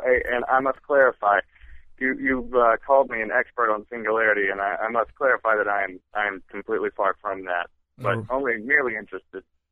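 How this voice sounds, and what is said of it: Speaks with a noticeable accent. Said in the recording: “There's that accent again. I thought I was talking to Dr. Manhattan ... It always comes out on the radio.”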